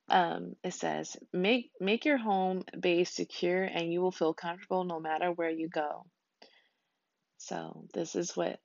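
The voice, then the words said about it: Scratchy voice. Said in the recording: “It kind of sounds scratchy”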